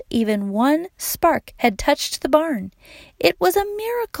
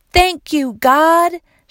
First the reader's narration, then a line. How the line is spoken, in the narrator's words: shouted Wayne